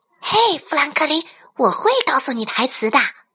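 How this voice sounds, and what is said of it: Whispered, quiet speech. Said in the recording (Chinese): “小声的说”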